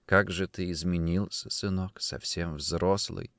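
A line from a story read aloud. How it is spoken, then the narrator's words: Whispering. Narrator (Russian): прошептала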